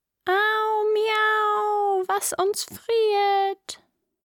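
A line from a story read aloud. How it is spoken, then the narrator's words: Sudden cry from corner. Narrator (German): schrie's plötzlich aus einer Ecke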